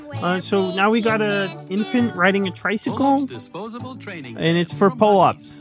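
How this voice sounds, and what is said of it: Announcer-style narrator voice. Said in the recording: “narrator voice”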